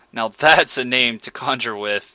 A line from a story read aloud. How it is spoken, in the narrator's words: exclaimed Redman